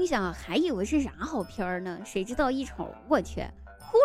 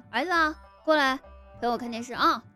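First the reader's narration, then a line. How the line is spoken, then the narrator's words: Calling out. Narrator (Chinese): 我姑父就叫他说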